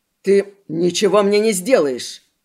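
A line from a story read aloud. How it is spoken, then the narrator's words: Masked man hissing. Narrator (Russian): Прошипел человек в маске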